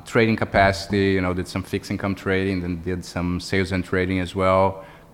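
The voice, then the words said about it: Brazilian-accented English. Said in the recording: “my accent was probably double hard to understand ... I'm Brazilian”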